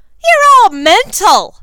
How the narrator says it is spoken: shouted over the din

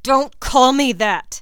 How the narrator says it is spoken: Draco shouts, and his cheeks are flushed with anger

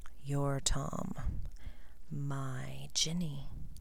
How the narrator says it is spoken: he whispered

